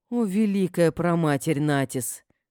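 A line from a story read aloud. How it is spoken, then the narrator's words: Pleading prayer. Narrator (Russian): взмолиться мне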